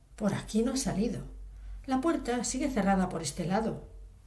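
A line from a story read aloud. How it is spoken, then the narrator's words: Exclaiming. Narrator (Spanish): No tardó en exclamar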